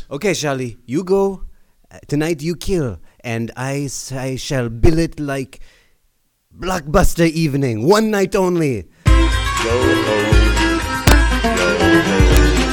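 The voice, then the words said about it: French accent. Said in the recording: “You're a French agent. You've probably seduced 1,000 women in the United States with that accent.”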